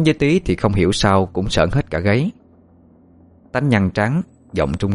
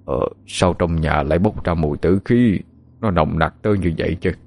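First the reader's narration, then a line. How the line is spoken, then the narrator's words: Stammering. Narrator (Vietnamese): Thầy lắp bắp nói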